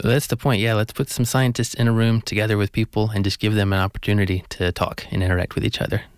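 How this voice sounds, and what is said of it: American accent. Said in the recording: “I presume the accent is from the States... I grew up in the southeast in Georgia”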